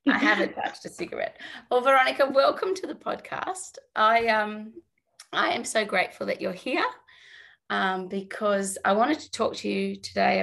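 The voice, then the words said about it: Hoarse, raspy voice. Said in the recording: “I sound like an absolute dinosaur. I've been sick... sounds like she's been smoking a pack a day”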